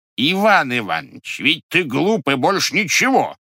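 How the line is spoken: Loud. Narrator (Russian): громко сказал Григорий Григорьевич

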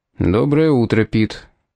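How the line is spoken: Gloomy greeting. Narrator (Russian): мрачно поприветствовал его помощник комиссара полиции

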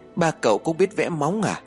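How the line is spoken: Laughing loudly. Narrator (Vietnamese): Phong liền cười lớn

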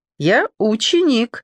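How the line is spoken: Joyful confirmation. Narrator (Russian): радостно подтвердил Оди

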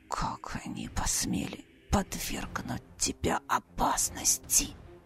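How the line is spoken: Barely audible whisper. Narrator (Russian): еле слышно прошептал он

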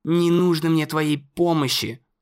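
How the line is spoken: Dismissive snort. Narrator (Russian): фыркнул Конор

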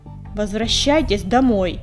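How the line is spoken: Barking. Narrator (Russian): рявкнул Чернохват

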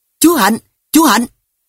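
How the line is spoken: Loud shouting. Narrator (Vietnamese): Tôi và anh Khánh miệng hét to

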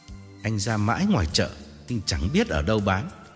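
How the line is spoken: Calm smiling reply. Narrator (Vietnamese): Tôi mỉm cười và thản nhiên đáp

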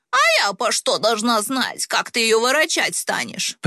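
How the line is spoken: Old woman's sharp shout. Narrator (Russian): прикрикнула бабка

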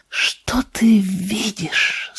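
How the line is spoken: Whisper. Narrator (Russian): снова прошептал Джон

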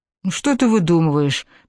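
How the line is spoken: Gentle tender speech. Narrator (Russian): проговорил ласково

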